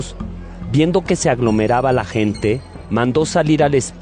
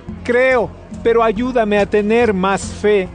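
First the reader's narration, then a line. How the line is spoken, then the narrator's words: Father's sudden cry. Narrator (Spanish): El padre del niño gritó al instante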